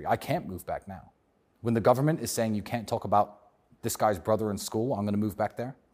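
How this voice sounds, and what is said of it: British accent. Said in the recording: “my British accent is stronger than Andrew's”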